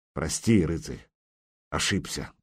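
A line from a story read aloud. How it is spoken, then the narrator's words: Muttered. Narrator (Russian): пробормотал он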